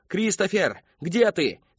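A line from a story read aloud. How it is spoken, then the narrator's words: Shout. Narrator (Russian): кричала она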